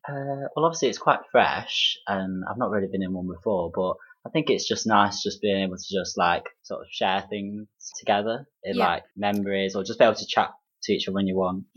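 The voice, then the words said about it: Derby English accent. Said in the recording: “your Derby accent”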